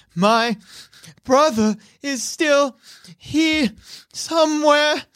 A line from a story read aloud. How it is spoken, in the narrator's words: through like heavy sobs, she says